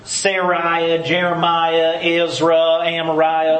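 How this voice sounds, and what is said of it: Exaggerated Southern accent. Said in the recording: “say them in a very southern accent”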